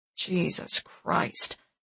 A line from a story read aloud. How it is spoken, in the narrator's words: Marty grumbles